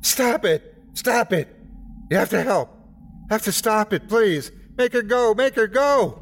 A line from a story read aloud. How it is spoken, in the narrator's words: Tears were wet on his cheeks, and spit flew in my face as he screamed